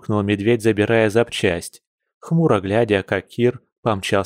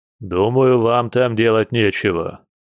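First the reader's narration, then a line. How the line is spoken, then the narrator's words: Displeased bear's grumble. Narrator (Russian): недовольно проворчал медведь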